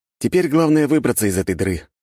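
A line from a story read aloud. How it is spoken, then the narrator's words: Sighed. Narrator (Russian): вздохнул я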